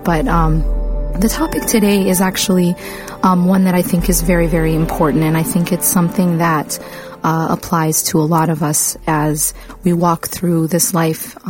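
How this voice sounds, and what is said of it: Sick, voice cutting in and out. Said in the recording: “apologizing for my voice. I'm actually a little bit sick, so my voice is going to come in and out.”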